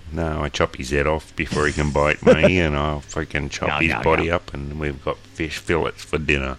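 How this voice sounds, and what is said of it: Put-on Australian accent. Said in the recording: “I can do an Australian accent better than an American”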